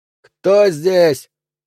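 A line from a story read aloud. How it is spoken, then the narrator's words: Booming bark. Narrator (Russian): раскатисто гаркнул Миллер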